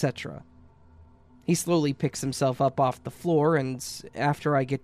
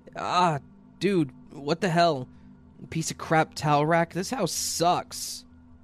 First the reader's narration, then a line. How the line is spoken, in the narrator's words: half yelling and moaning